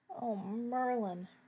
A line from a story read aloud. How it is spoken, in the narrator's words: Remus moaned, close to tears